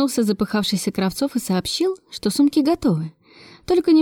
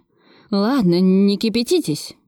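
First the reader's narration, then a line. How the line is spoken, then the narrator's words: Grumble. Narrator (Russian): проворчал Кравцов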